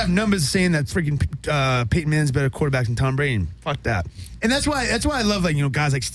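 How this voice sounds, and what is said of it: Usual voice. Nothing is said of it.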